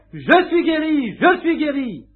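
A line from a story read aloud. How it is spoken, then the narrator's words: Shouting. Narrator (French): criant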